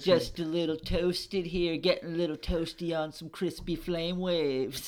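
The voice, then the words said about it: Laid-back surfer dude voice. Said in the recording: “let's drift out of the surfer voices”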